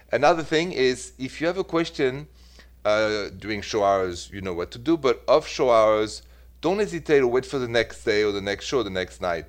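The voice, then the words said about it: French accent in English. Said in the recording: “I am from Paris ... the accent never went away, so bear with me”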